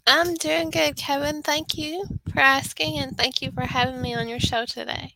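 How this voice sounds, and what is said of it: Northeast Texas accent. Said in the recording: “you have a wonderful, wonderful accent ... Northeast Texas”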